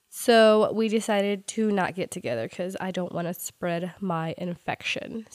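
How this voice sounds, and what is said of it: Sick, strained voice. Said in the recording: “I am quite sick, if you can't tell by my voice... I apologize in advance for my voice... See, you can't even talk.”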